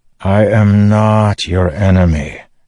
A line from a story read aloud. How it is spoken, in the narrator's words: Dalinar sighed